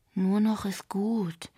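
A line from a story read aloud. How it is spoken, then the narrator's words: Sighing. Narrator (German): seufzte Yuki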